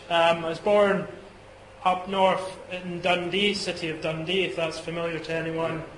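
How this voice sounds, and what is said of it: Scottish accent. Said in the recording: “You may be picking up a Scottish accent. If you are, that's correct. I am Scottish.”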